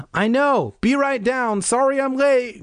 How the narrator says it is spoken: Greg shouted back

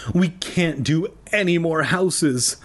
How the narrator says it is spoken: Lee exclaimed weakly

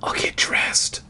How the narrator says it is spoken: I whispered

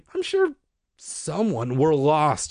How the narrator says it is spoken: she repeated miserably

